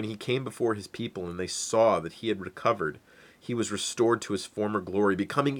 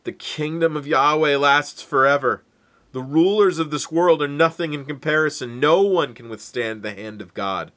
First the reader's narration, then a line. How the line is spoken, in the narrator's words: Nebuchadnezzar, the greatest king that part of the world had ever known, called out